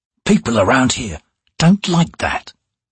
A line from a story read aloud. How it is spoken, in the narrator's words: he said quietly